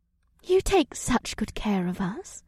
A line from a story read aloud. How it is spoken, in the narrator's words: Ibsith said in a dreamy tone